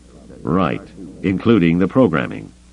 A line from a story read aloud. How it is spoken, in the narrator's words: Lando said dryly